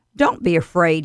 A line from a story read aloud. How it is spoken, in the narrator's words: He said